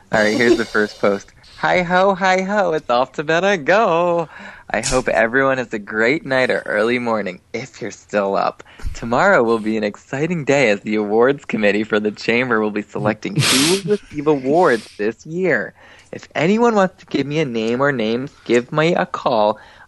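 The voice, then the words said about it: Effeminate put-on voice. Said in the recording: “I'll read it in my effeminate gay voice.”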